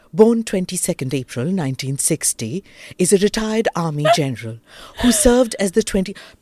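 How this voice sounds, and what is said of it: Deep old-style English newsreader voice. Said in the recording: “Pet mein se awaaz nikalo and speak in that accent... Neeti Ravindran ki tarah English bolo”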